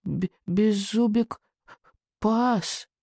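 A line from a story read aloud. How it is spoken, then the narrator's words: Barely audible. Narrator (Russian): чуть слышно произнес он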